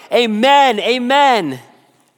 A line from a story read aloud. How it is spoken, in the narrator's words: all the people stood up, lifted up their hands, and shouted